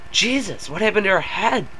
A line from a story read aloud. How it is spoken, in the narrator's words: the driver exclaimed